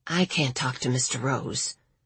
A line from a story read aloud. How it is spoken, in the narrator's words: Patricia said under her breath, barely audible, even in the quiet library